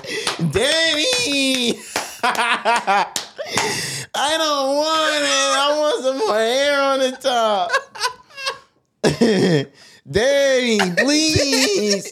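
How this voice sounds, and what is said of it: Whiny pleading childlike voice. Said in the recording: “I sound like a bitch”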